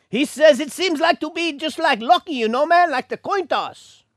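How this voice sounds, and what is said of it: Mock Hispanic accent. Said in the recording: “my Hispanic accent ... poke fun at one another's accents”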